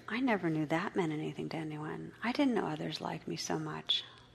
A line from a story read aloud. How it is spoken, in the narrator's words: I heard whispered